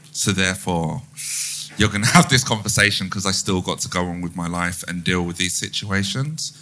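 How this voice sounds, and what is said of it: South London accent, Jamaican influence. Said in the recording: “I don't talk the Queen's English... I sound South London... I sound like my grandmother's Jamaican tongue”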